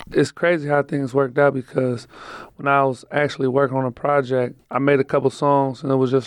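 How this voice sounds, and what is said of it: Raspy, slightly lost voice. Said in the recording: “my voice gets a little raspy. I just had an album release party and I kind of lost my voice a little bit.”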